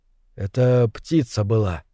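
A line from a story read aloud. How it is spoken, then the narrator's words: Quiet. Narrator (Russian): сказал Николин тихо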